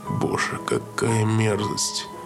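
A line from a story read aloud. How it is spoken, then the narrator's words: Whispered. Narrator (Russian): прошептал Джексон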